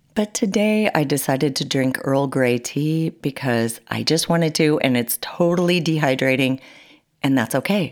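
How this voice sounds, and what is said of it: Slightly congested, sinusy voice. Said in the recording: “if I have a sinus condition, which I kind of do right now, you're going to hear it”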